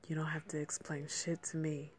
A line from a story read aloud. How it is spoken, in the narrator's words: she whispered